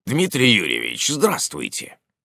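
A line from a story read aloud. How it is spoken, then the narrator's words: Slightly hoarse voice. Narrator (Russian): хрипловатый голос принадлежал моему гостю из Твери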